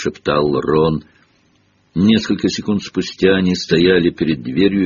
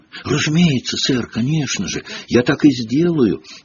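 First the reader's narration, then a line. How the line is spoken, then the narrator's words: Frightened mumble. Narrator (Russian): испуганно пробормотал Пивз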